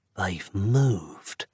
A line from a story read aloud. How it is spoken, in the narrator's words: whispered Nick